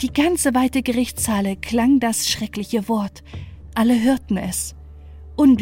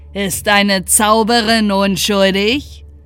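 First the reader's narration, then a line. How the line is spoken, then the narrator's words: Count's mocking laughing call. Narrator (German): rief der Graf mit höhnischem Lachen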